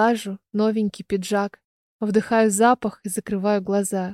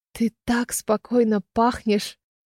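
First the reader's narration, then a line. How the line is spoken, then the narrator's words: Whisper. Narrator (Russian): прошептала я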